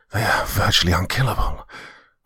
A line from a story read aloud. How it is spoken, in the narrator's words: growled Rufus as he fought his way to my side